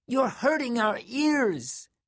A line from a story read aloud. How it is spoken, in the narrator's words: the little girls cried